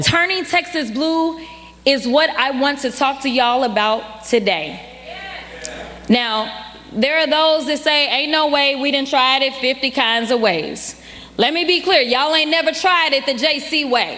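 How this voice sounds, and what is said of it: Fake put-on accent. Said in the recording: “that's her putting on her accent. So it's all fake. It's all a show.”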